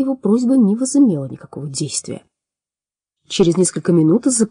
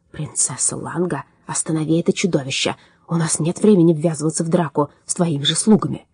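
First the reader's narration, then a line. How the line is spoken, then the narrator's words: Quietly spoken. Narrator (Russian): Он негромко произнес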